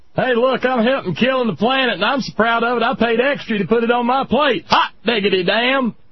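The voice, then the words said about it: Poor put-on Michigan redneck accent. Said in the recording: “I just don't do the Michigan accent worth a damn... It all ends up sounding like Sarah Palin... You've got a little bit too much of that Minnesota... I just generically leave it redneck”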